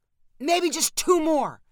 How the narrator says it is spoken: called Spencer above all the grunting

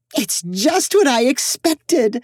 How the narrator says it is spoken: Ophelia said happily

